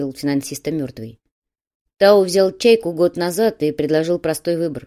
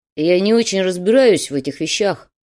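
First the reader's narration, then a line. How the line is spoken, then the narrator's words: Grumble. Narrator (Russian): пробурчал Холодов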